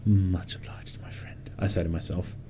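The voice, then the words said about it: Whispering. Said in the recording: “why are you whispering to yourself?”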